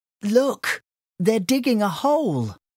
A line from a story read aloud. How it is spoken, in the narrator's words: exclaimed Sandy in surprise